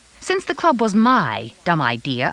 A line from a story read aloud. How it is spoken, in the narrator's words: I snapped